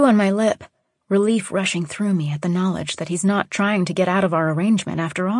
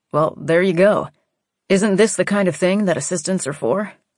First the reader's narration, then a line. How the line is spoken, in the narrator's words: I say dryly